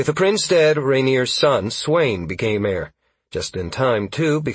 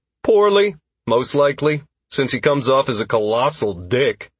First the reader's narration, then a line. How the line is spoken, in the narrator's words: Constantine grunted